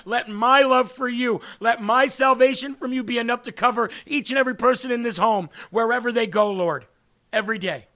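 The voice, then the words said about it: Choked-up, emotional voice. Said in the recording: “I don't know why I'm getting choked up.”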